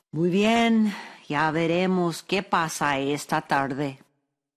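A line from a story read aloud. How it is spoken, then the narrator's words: Sighing, grieved. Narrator (Spanish): Don Ignacio quedó acongojado por la pérdida de todas las manzanas, pero suspiró y dijo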